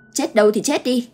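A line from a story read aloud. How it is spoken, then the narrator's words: Woman shouting. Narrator (Vietnamese): cô hét lên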